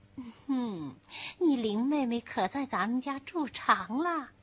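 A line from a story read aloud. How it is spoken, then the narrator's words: Long sigh. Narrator (Chinese): 宝玉长叹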